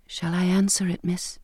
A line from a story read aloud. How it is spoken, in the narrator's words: Bridget whispered